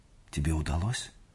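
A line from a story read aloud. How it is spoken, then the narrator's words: Plain. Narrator (Russian): спросила она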